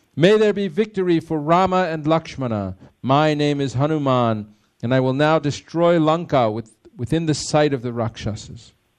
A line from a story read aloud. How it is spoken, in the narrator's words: Hanuman then shouted